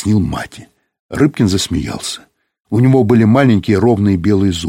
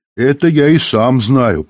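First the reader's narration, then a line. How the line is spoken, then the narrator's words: Grumbling. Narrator (Russian): проворчал Пеньков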